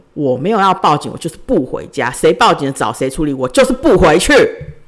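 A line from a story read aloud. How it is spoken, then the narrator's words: Loud. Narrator (Chinese): 大声回答他们说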